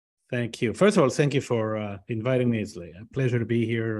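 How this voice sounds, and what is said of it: Speaks English with a foreign accent. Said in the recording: “I hear the accent.”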